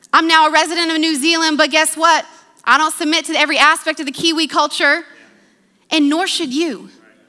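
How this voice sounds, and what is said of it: American accent. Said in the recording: “I'm an American with an American passport, educated in America. That's my accent.”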